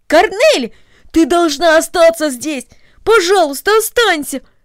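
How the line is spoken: Exclamation. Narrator (Russian): воскликнул Дино

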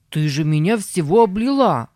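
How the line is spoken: Shouting. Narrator (Russian): закричал он

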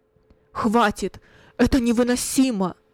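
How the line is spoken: Loud, trembling voice. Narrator (Russian): произнес громко Кунерих дрожащим голосом

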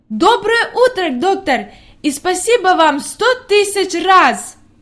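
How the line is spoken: Joyful exclamation. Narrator (Russian): воскликнула

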